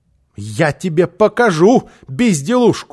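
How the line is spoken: Shouting. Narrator (Russian): закричала она

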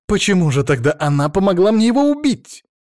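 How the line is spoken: Heated outburst. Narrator (Russian): В запале выкрикнула Денисова

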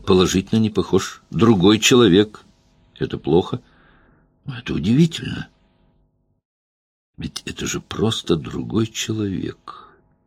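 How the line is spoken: Soft singsong. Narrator (Russian): тихо пропел он

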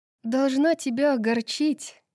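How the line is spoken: Mocking. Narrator (Russian): насмешливо произнесла Брайс

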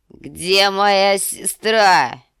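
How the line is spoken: Drunken shout. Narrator (Russian): крикнул Визерис голосом, полным вина

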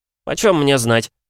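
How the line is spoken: Snapping retort. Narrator (Russian): огрызнулся Рогдай

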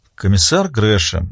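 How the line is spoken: Sighing. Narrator (Russian): вздохнула Маура

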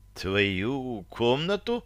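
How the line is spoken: Hoarse frightened question. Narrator (Russian): хрипло переспросила Таша, затравленно

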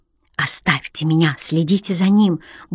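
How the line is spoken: Quick whisper in ear. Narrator (Russian): быстро шепнула она мне на ухо

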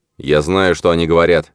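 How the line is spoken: Irritated interruption, captain. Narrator (Russian): раздраженно оборвал подчиненного капитан подлодки

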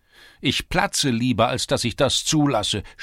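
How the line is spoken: Woman shouting. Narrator (German): schrie die Gefährtin Tscherewiks

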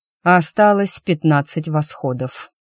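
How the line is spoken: Bored tone. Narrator (Russian): скучающим тоном произнес

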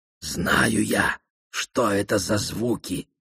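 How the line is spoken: Whispered. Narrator (Russian): шепнула Розине Дэви Айо

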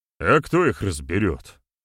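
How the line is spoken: Gloomy reply. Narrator (Russian): мрачно ответил Добрыня

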